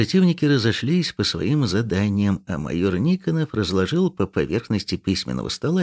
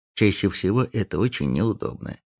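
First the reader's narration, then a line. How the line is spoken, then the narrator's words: Quiet but firm objection. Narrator (Russian): возразил Казаченко тихо, но твердо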